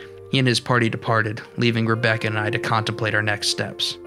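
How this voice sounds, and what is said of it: Usual voice. Nothing is said of it.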